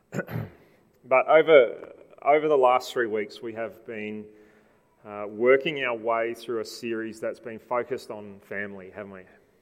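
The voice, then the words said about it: Slightly raspy voice. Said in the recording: “my voice is a little bit raspy this morning”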